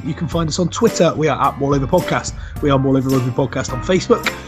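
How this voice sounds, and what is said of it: West Country English accent. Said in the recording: “all with a West Country accent”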